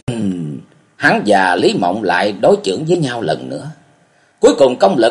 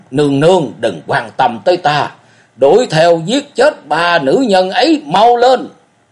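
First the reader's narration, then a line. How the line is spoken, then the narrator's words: Roaring. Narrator (Vietnamese): Cổ Du gầm rống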